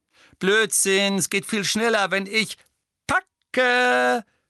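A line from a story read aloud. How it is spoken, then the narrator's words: Called out. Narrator (German): rief Tonks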